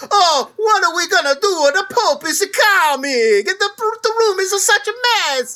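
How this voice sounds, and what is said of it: Exaggerated stereotypical Italian accent. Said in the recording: “they're all doing that voice ... how stupid this voice is, and that we've had this whole history of people thinking that this is what Italian people are like”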